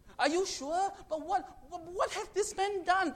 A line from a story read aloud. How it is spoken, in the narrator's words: Pontius Pilate continuously pleaded